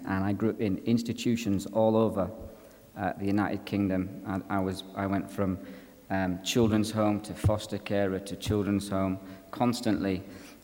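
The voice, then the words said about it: English accent. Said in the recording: “I was shipped to a big children's institution in England, and hence the accent.”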